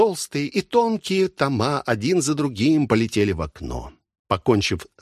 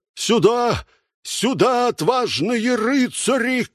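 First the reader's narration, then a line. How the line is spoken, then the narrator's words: Shouting. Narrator (Russian): кричал он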